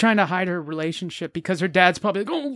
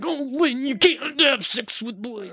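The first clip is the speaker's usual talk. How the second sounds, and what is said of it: Poor impression of Willie from ALF. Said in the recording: “That was not a good Willie impression. ... Is that Bill Cosby? ... Max Wright is a unique force of nature, so it's hard to impersonate.”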